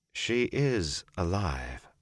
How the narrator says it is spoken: Moraine said slowly

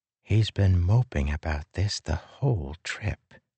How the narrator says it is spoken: she whispered

